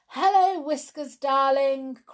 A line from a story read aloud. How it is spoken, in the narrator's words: cried the brownies, who were both very fond of their cat